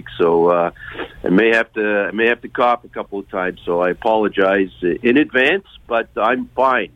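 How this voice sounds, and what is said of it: Rough, hoarse voice from a cold. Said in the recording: “My voice is a little bit rough today... my usual cold at this time of year hit me this week.”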